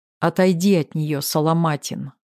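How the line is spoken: Calm. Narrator (Russian): спокойно проговорил Максим

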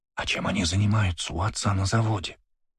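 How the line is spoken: Whisper in the ear. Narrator (Russian): прошептала она мне на ухо

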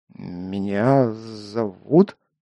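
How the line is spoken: Stammering. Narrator (Russian): запинаясь, проговорил я

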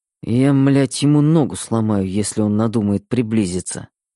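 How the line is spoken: Muttered. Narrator (Russian): пробормотал Мэтт

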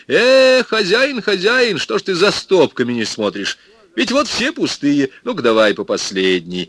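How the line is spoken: Cheerful exclamation. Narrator (Russian): Михаил Степанович весело воскликнул

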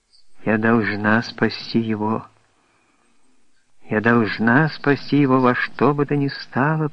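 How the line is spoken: Whisper. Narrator (Russian): прошептала принцесса

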